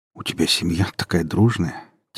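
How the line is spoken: Quiet voice. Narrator (Russian): тихим голосом проговорил Май

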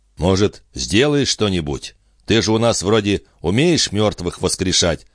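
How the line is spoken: Plain. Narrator (Russian): спросил кто-то

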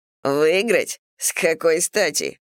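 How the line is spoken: Little man snorting. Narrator (Russian): фыркнул человечек

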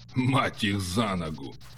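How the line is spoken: Good-natured grumble. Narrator (Russian): Добродушно пробурчал Эккерт

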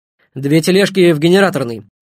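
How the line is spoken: Shouted. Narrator (Russian): крикнула Ноженко

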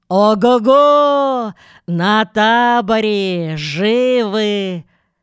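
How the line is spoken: Rowdy bellowing shout. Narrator (Russian): Зведер заорал разбойничьим голосом

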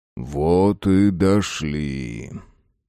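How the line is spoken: Deep bass voice. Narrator (Russian): пробасил мертвый богатырь

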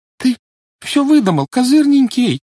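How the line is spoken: Trembling babble. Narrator (Russian): дрожащим голосом пролепетала Жюли

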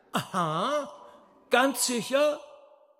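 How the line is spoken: Roaring. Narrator (German): Fagott brüllte

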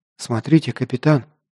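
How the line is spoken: Whisper. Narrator (Russian): прошептала лучница

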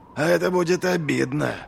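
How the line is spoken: Hiss. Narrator (Russian): прошипел Доу

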